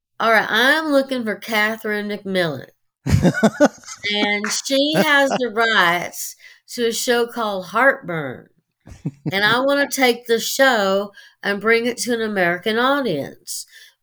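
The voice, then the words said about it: Put-on Southern American accent. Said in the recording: “I was Southern. I mean, I adopted a Southern accent.”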